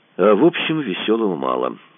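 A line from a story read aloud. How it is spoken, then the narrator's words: Sensible, after laughing. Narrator (Russian): рассудительно сказал Кацуба, отсмеявшись первым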